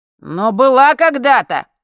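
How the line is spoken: Triumphant howl, boy. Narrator (Russian): триумфально взвыл С, умный мальчик

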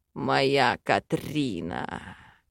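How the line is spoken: Growling against lips. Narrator (Russian): Рычал он в губы

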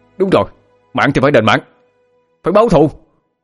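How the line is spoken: Agitated group shouting. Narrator (Vietnamese): Các thành viên cũng kích động mà gào lên

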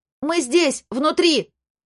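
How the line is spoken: Loud shout. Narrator (Russian): громко крикнула Хэти

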